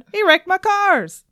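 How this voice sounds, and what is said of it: Very bad impression of Tim. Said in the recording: “That's my very bad impression of Tim.”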